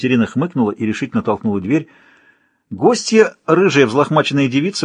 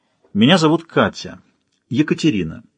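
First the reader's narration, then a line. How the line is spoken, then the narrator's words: Dry. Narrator (Russian): сухо представилась Катерина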